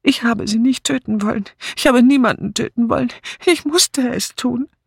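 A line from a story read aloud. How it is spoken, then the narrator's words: Explaining while still sobbing. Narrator (German): Charlotte Blacklock … erklärte noch immer schluchzend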